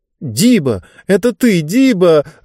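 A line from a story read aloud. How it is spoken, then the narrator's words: Joyful exclamation. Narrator (Russian): радостно восклицала Лектория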